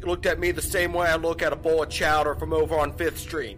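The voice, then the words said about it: Goofy put-on Boston accent. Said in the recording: “This goofy ass Boston accent is cracking me up”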